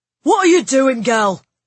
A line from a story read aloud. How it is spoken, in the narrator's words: he shouted